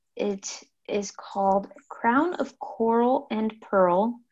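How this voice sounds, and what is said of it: Speaks very slowly. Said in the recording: “say that very slowly”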